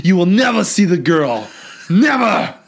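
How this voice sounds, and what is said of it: Imitates another person's voice. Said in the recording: “my Arnold impression”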